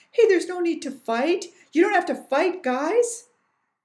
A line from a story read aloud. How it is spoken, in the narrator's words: Jennifer kept shouting